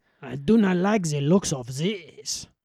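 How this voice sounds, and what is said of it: Put-on accent. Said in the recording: “that was the accent that we told our 4-day players to do”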